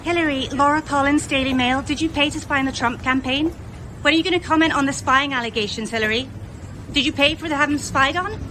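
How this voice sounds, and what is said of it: British accent. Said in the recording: “the key thing about that is the accent, right? She's from the British paper, the Daily Mail”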